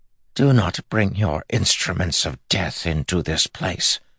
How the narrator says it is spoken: Grandmother hissed

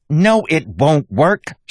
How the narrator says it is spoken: snapped

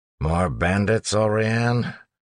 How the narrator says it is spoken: Set asked with a sigh

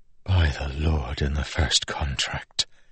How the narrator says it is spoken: Milan whispered

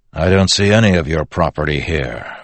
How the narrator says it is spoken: Waxillium replied coldly

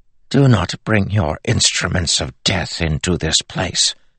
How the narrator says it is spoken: Grandmother hissed

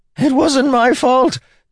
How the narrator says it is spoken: Templeton screamed

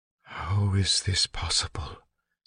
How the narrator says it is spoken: Tyndall whispered

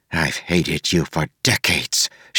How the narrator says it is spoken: she hissed at him

